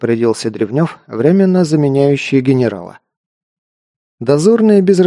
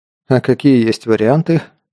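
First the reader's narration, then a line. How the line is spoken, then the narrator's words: Tired question. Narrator (Russian): устало спросил Саша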